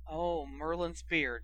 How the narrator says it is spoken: she muttered

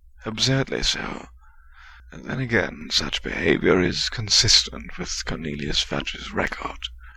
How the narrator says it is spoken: Remus muttered, sounding disgusted

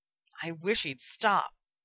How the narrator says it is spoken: he muttered

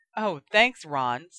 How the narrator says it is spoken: snapped Ginny

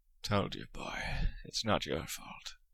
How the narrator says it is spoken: Moody muttered, his face softening a little

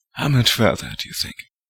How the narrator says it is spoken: Lupin said quietly

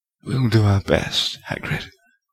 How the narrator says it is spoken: whispered Lupin

